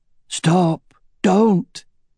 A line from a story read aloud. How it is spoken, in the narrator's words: Elva cried out in a weak voice